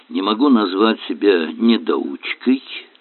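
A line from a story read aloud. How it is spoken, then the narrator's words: Grumble. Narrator (Russian): буркнул он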